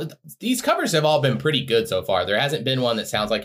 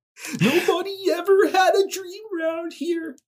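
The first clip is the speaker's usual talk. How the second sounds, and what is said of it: Kermit-like singing voice. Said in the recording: “do your best impression of Max Power singing Sam's Town ... like ... Kermit.”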